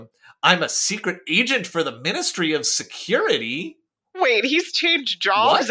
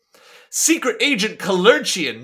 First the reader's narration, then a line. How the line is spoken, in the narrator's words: shouted Fagin